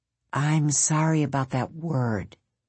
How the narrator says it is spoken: Stephen said softly

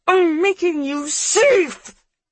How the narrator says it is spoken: she screams, and it tangles off into a choking rasp

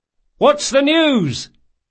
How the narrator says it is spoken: Locke cried

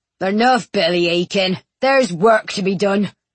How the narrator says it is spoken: he grumbled

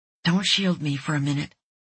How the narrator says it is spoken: she murmured

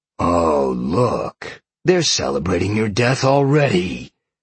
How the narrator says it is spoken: Sean growled

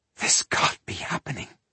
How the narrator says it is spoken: she whispered in disbelief

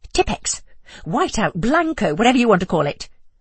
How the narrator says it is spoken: I snapped

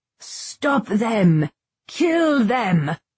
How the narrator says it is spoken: Corlant's roars

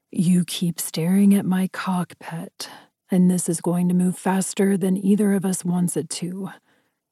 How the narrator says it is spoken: he said, rasping his words as if he was as hot and bothered as I was

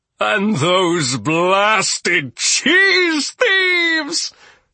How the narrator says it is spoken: Toby howled

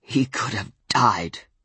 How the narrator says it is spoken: Ben said to me, his voice rough with the wolf

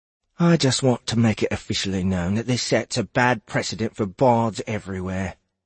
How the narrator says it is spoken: Alder said quietly

